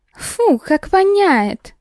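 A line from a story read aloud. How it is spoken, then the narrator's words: Shrill young girl's voice. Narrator (Russian): Раздался визгливый голос одной из девиц примерно моего возраста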